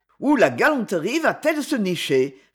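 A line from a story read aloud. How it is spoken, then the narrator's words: Stout man, surly tone. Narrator (French): fit le gros monsieur d'un ton rogue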